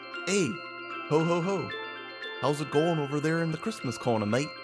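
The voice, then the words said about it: British Santa voice drifting Midwestern. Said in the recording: “British Santa? ... Turned into Midwestern in the middle with a ha ha ha. ... You're so good at impressions.”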